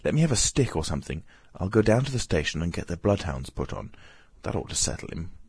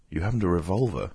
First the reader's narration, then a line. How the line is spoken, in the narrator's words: asked Adye